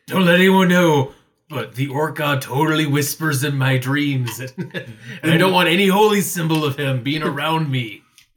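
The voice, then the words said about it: Loud stage whisper, weird voice. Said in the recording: “mimic whispering ... just stage whisper ... Talk actually louder. But in a weird voice ... this is totally a whisper”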